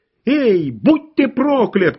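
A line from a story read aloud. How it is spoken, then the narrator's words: Shouting. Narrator (Russian): кричала она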